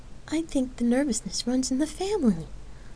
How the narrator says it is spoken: Lark chuckled

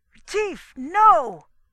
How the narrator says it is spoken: Spradley yelped

